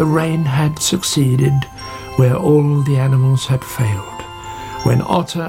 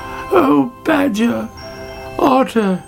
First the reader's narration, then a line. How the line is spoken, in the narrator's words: she cried